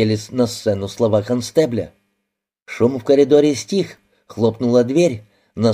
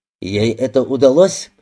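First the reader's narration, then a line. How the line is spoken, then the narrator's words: Sharp question. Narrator (Russian): резко спросил Аллен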